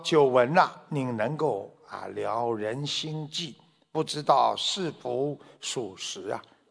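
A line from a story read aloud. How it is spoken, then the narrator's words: Plain. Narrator (Chinese): 他就问了这个三藏法师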